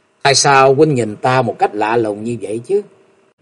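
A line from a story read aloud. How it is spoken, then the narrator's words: Young woman, giggling. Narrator (Vietnamese): Bạch y thiếu nữ bỗng cất tiếng cười khúc khích nói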